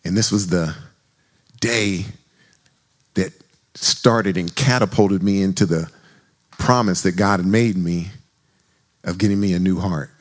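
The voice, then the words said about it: Excited, emotional voice. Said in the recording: “I'm a little excited. I'm a little emotional.”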